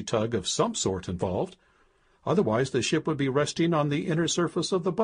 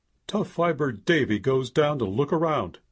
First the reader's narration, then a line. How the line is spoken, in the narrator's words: he grumbled